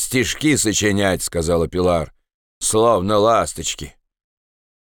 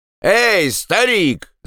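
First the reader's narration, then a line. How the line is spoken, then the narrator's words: Shouting. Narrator (Russian): закричала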